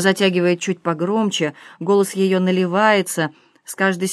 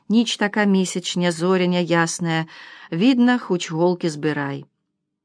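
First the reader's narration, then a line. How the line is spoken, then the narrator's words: Mother, very quiet. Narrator (Russian): Начинает мама тихо-тихо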